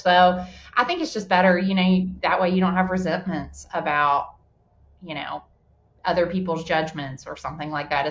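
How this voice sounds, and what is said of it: Southern US accent. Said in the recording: “I have more of an accent... people think I sound like I'm from like Alabama... you sound like you grew up on a farm”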